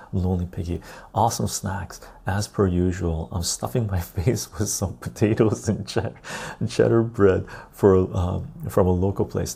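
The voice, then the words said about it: Soft-spoken, quiet voice. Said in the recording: “I'm just soft spoken right now, just the way I am. Or a little bit softer as well.”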